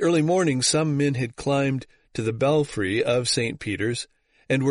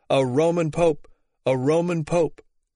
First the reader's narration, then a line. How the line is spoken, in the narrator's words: All night the crowd kept up their cries